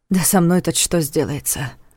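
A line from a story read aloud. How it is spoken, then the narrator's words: Worried mutter. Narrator (Russian): пробормотал он, озабоченно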